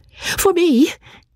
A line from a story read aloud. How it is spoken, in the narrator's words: cried Marianne